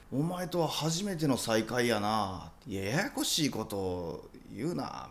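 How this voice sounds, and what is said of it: Quoting lines in Kansai dialect. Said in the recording (Japanese): “関西弁で ... 多分関西弁で”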